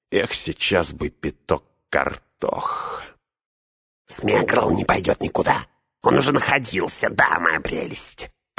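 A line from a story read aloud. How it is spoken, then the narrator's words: Hissed. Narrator (Russian): прошипел Горлум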